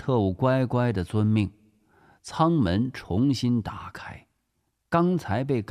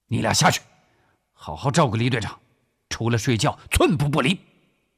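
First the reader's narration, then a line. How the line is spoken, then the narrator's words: Roaring. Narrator (Chinese): 古正文吼道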